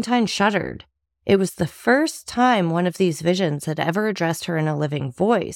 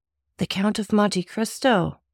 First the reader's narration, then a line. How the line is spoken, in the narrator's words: murmured